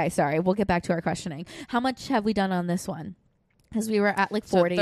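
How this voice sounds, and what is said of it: Usual voice. Nothing is said of it.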